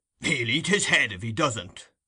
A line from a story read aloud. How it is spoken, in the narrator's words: growled Mr